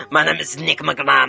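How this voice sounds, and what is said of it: Put-on French accent. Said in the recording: “sound so French”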